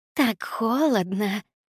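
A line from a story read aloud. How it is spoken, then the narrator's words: Moaning. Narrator (Russian): простонала Никс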